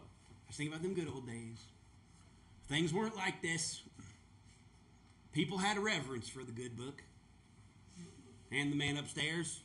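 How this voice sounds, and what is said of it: Put-on redneck accent. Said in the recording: “I think of rednecks for some reason. It just kind of comes out of me. So that's where the accent is.”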